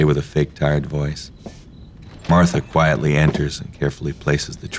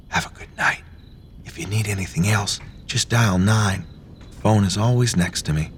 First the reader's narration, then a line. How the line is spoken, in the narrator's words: Martha whispers